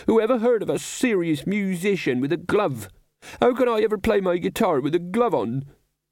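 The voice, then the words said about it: Terrible, anguished character voice. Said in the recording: “in a terrible voice”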